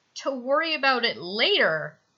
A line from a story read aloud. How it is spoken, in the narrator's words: says, letting out an involuntary little groan